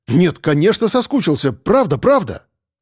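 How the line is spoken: Exclamation. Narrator (Russian): воскликнул он

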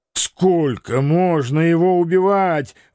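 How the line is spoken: Groaning in unison. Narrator (Russian): в один голос, не сговариваясь, простонали все мы

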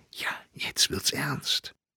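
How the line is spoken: Smiling whisper. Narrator (German): Fräulein Gasteiner lächelnd flüsterte

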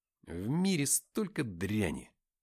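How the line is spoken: Muttering. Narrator (Russian): пробормотал я

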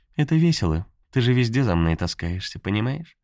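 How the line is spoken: Sweet yet stinging. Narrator (Russian): Ласково говорила, но слова жалили

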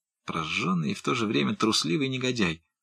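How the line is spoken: Muttered. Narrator (Russian): пробормотал молодой моряк

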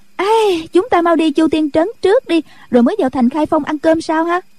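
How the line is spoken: Excited cheerful cry. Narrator (Vietnamese): Nhạc Linh Sang cô reo lên

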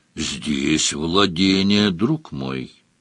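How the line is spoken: Gentle interruption. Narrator (Russian): мягко прервал его Сварог

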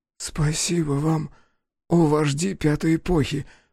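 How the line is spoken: Boy's hoarse rasp. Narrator (Russian): прохрипел мальчик

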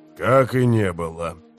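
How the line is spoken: Sighing. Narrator (Russian): вздохнул у него за спиной Гесслер

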